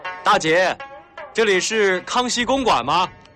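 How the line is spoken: Loud question. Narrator (Chinese): 廖飞大声地问

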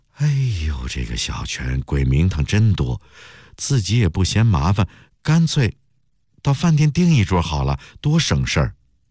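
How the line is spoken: Sighing. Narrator (Chinese): 毛小妹叹口气

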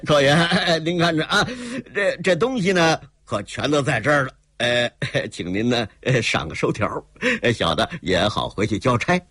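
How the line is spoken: Rapid speech, then laughing. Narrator (Chinese): 她一口气说了这么些 又是哈哈一笑

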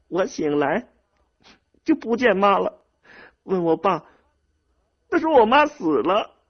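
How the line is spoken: Sobbing. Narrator (Chinese): 猫蛋哭得更伤心了，说

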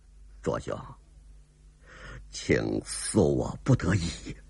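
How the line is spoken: Soft sigh. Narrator (Chinese): 黑人轻轻一叹

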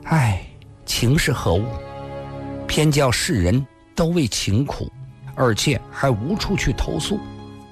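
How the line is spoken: Sighing. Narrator (Chinese): 辫子姑娘也常常叹了口气

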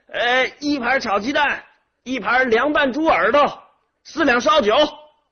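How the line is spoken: Hawking shout inward. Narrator (Chinese): 老板 吆喝着朝里边喊

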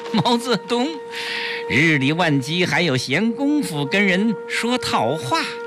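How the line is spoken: Man laughing loudly. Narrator (Chinese): 黑衣人哈哈大笑

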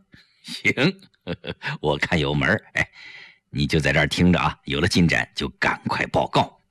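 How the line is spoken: Quiet laughing. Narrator (Chinese): 程寒三就笑了，他小声笑着对胡威说

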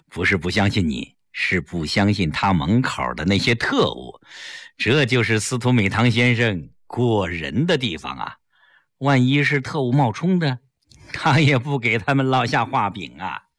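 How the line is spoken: Smiling. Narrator (Chinese): 齐长鹏一笑

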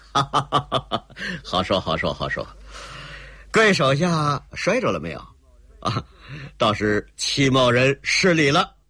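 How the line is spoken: Hearty laugh. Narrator (Chinese): 那个姓齐的朗声一笑

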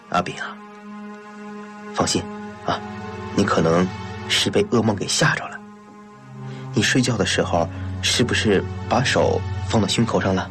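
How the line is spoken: Soft question. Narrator (Chinese): 安在天轻声地问他

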